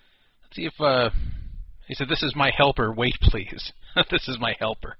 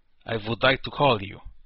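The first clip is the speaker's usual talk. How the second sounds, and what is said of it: Put-on Russian accent. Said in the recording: “I wish I could, like, type in a Russian accent.”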